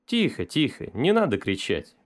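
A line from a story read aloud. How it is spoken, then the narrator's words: Gentle. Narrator (Russian): мягко сказал полковник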